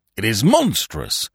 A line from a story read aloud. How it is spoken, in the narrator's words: said the Colonial Secretary hotly